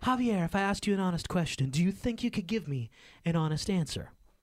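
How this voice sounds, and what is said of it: Imitates another person's voice. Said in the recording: “Janine is like, that's my impression.”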